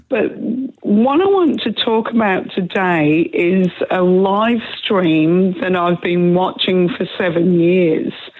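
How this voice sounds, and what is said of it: Hoarse voice from a cold. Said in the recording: “excuse my voice. I've got a bit of a cold. ... my voice is still gone.”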